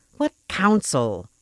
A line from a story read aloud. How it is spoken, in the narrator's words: interrupted testily